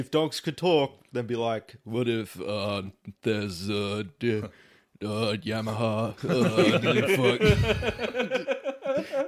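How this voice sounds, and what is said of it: Impression of Brendan Schaub. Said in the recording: “my Brendan Schwab impression”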